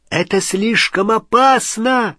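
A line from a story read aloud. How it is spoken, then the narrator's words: Shouted warning. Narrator (Russian): закричал ему Рон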